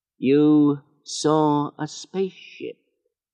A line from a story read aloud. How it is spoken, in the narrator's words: he said slowly